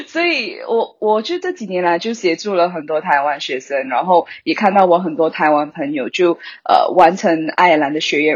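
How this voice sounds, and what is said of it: Malaysian-accented Mandarin, clear. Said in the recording (Chinese): “我本身是马来西亚人，你应该可以听得出我的口音 ... 但是很清楚”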